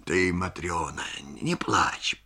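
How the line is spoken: Muttering. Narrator (Russian): бормочет он

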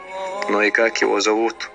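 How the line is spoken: Softened, sighing question. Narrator (Russian): Эдди вздохнул и, смягчив тон, спросил

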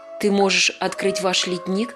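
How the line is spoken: Plain. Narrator (Russian): спросила она

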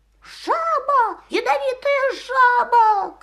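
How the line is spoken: Shouting. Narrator (Russian): кричал

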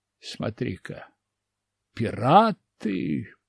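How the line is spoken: Careful mutter. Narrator (Russian): пробормотал я аккуратно

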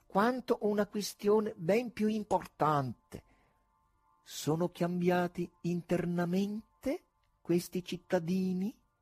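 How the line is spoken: Wizard speaking slowly. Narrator (Italian): diceva lentamente il mago

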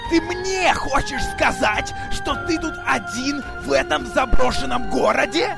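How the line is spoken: Stranger yelling. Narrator (Russian): Орал незнакомец

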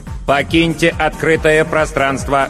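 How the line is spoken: Metallic electronic demand. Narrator (Russian): железным голосом потребовала электронная машинка

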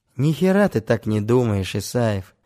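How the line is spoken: Sighing. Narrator (Russian): вздохнул он

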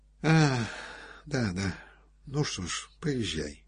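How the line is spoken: Soft. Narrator (Russian): сказал мягко Рябовский

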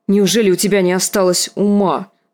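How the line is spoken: Barked. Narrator (Russian): рявкнула Лиза

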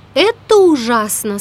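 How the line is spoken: Plain. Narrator (Russian): сказала Салли

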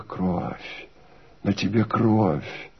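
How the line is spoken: Quiet. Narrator (Russian): отвечала она тихо

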